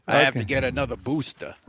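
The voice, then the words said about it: Imitates another person's Brooklyn accent. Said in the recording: “Are you mocking Fauci's accent? ... He's from Brooklyn, New York.”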